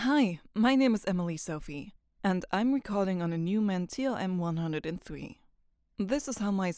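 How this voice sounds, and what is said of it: Usual voice. Nothing is said of it.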